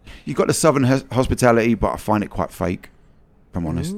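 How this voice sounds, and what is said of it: London English accent. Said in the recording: “every person I ever meet from Texas is always fascinated by my accent ... you said you're from London”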